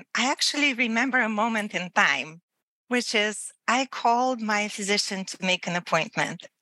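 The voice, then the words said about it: Distinctive accent, unique way of speaking. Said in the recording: “It was my accent. It was the unique way that I speak ... my accent”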